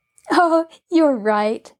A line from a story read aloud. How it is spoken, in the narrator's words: Nancy laughed